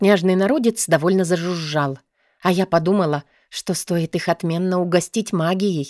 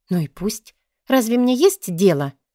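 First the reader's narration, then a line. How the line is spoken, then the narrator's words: Pleading. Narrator (Russian): я взмолилась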